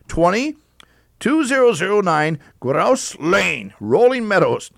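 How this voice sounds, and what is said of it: Slight put-on German accent. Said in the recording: “a little German accent there”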